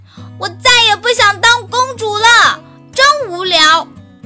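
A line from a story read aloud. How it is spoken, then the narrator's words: Loud shout. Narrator (Chinese): 伊莎大声喊道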